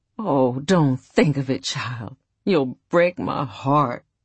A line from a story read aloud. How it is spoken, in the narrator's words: she would groan out